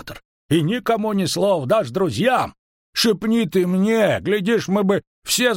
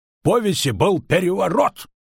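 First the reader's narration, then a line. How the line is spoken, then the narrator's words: Barking. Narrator (Russian): рявкнул Андатор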